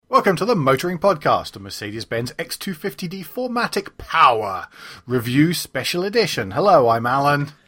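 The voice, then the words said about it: Silly put-on voice. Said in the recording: “What on earth is the silly voice?”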